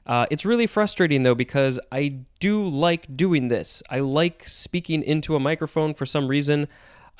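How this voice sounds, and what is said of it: Slightly raw, strained voice. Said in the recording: “my voice is getting a little raw”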